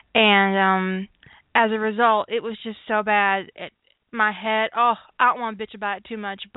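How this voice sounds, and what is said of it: Congested, sick-sounding voice. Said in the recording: “you can kind of tell that my voice is a little weird. I'm still uh, a little sick. I've basically had a head cold”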